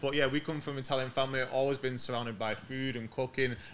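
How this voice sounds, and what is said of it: English accent. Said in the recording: “We're born in England, hence the accent.”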